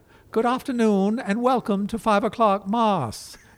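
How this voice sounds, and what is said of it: Priest impression with New England accent. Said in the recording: “an impression of a priest from Notre Dame ... this is kind of how he talked with the New England accent”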